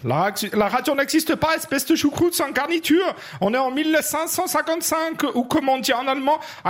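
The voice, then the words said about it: Put-on German accent. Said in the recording (French): “accent germanique ... magnifique accent teutonique du sud de notre bon Saint-Empire romain germanique ... toi qui le fais”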